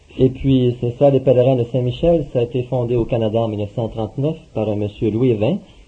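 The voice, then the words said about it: Canadian French accent. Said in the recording (French): “Par l'accent, vous allez voir que je suis canadien”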